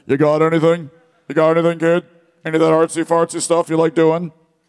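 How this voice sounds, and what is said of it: Shawn Michaels impression. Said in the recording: “I can't do a Shawn Michaels accent, but maybe it's probably better than my Irish accent.”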